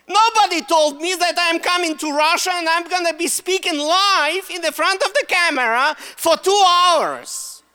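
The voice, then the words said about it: Russian accent. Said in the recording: “Why do I use Russian accent? I'm Russian. ... That's my Russian accent right there.”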